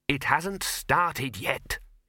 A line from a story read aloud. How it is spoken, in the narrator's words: hissed the Dean